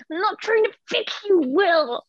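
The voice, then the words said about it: Imitates a character's voice. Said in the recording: “my favorite impersonation of Bailey yet”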